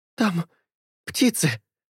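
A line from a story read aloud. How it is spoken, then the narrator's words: Strained utterance. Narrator (Russian): выдавила она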